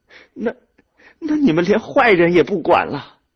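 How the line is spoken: Tearful glaring question. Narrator (Chinese): 兰花瞪着哭肿的眼睛问徐主任

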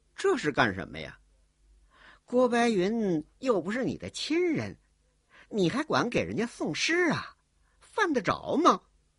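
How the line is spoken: Sneering. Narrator (Chinese): 冷笑着说

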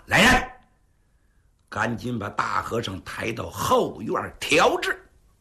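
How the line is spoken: Through gritted teeth. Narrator (Chinese): 金灯剑客一咬牙

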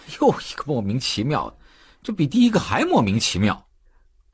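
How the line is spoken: Laughing aloud. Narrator (Chinese): 赶超笑出了声

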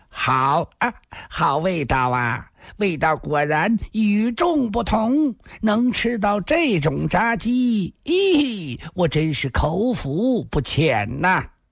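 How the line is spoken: Cheerful, mouth full. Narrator (Chinese): 游龙生自己却似已完全麻木了，脸上还是笑嘻嘻的……边嚼边说

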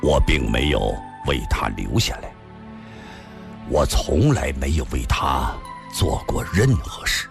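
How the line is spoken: Pained, low voice. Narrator (Chinese): 李寻欢 脸上渐渐露出了痛苦之色，低声地说道

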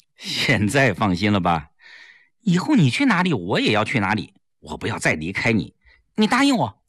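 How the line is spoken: Smiling. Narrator (Chinese): 齐长鹏笑了笑

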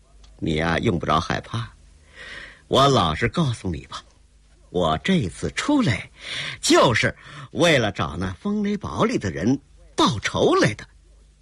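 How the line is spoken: With a laugh. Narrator (Chinese): 郭彩玲一笑

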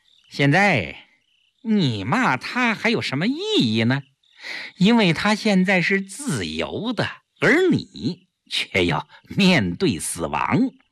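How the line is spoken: Smug, laughing. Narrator (Chinese): 顾青自负地笑笑，对萧啸天说

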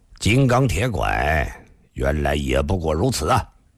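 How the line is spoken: Soft sigh. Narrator (Chinese): 那黑衣人却叹了口气，低声地说道

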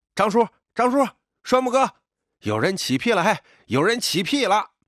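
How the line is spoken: Shouting from ground. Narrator (Chinese): 小伙子倒地后就喊

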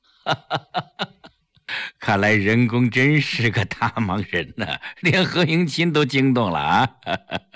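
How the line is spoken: Laughing. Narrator (Chinese): 朱运山笑道

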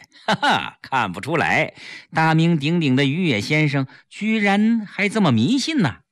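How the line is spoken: Several people laughing, teasing. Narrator (Chinese): 民主人士听了这话，纷纷笑着批评于野

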